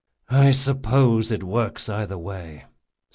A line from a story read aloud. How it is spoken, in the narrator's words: said Jean with a sigh